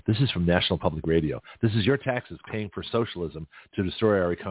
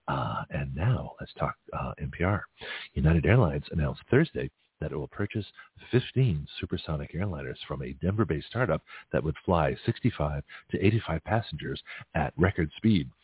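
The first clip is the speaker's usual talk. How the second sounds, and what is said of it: Mock NPR radio announcer voice. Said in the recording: “Let me give you my best, my NPR voice.”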